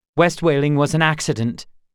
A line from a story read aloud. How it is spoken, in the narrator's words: Gar said curtly